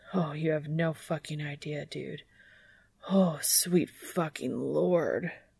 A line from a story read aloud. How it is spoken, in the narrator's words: Dean mutters between groans